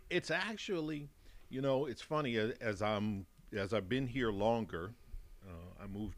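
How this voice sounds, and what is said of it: Mixed Chicago and Texan American accent. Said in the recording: “my accent, which I can't hear, but everybody here can hear ... we can hear it ... a combination of Chicago and Texas ... it's a Chicago Texan accent”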